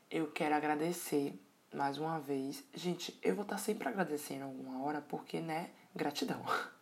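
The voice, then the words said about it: Sleepy, distant-sounding voice. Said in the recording (Portuguese): “a minha voz está um pouco distante. Um pouco de sono”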